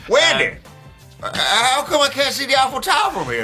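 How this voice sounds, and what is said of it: AJ Styles impression. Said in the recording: “can ... do an AJ Styles accent and say some Flat Earth stuff”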